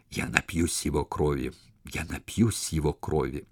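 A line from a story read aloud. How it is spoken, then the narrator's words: Ecstatic whisper. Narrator (Russian): в упоении прошептал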